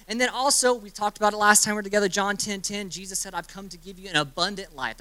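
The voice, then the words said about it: Very fast speech. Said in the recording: “I'm talking a lot, I'm talking really fast,”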